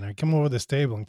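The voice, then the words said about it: Put-on Brooklyn accent. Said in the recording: “I'm doing my Brooklyn accent.”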